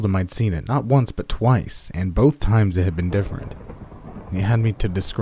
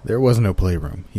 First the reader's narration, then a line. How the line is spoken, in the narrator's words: he said